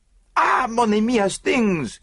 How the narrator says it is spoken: he cried

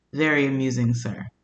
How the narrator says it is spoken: Ohad responds very dryly with

